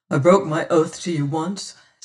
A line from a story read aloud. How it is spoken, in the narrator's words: says